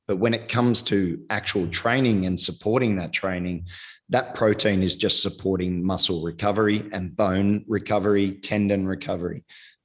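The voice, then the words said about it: Strained voice, giving out. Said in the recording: “my voice is going.”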